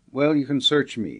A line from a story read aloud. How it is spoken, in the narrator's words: said he